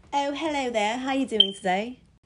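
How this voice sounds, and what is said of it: Playful put-on accent. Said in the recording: “I'm just playing with y'all, but if I really did have an accent”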